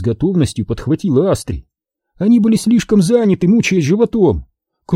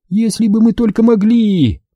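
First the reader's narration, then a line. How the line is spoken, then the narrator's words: Moaning. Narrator (Russian): простонала Астри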